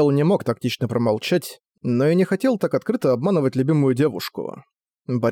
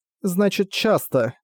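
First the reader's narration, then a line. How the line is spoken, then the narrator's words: Rueful sigh. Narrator (Russian): Сокрушенно вздохнула Латина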